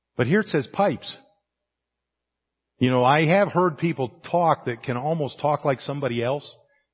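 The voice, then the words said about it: Mild hillbilly accent. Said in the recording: “I have somewhat of a hillbilly accent”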